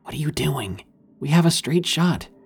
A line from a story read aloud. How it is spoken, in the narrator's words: He whispered